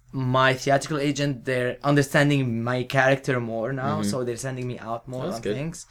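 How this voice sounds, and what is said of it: Speaks with a noticeable accent. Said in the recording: “I do have the accent, which I love... I have the accent.”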